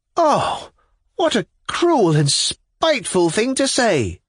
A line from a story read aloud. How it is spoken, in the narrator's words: cried Liza, while the tears gushed from her eyes